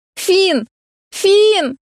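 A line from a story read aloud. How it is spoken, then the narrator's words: Shouting. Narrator (Russian): прокричала я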